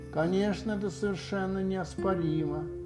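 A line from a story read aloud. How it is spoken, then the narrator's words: Muttered. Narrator (Russian): пробормотала сова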